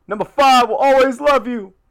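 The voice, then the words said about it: Imitates another person's voice. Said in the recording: “doing a McNabb impression.”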